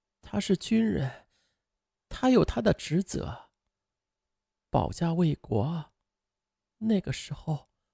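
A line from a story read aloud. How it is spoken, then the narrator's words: Choked, tearful. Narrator (Chinese): 肖思远的母亲哽咽着是这样说的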